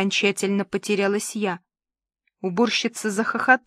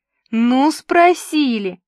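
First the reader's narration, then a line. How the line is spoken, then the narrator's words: Tearful moan. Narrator (Russian): простонала она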